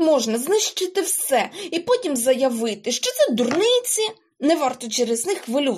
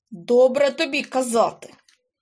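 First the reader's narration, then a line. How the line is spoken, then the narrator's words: Angry. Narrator (Ukrainian): сердито мовив Карлсон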